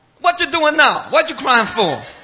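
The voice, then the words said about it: Trinidadian accent. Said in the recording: “she said in her Trinidad accent”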